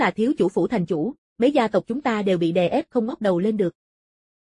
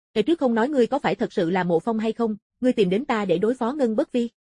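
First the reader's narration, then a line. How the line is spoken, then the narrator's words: Startled, loud laughter. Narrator (Vietnamese): Mã Đức Bang sửng sốt rồi cười lớn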